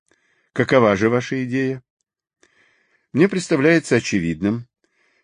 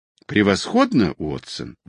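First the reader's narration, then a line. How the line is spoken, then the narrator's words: Exclamation. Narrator (Russian): воскликнул Холмс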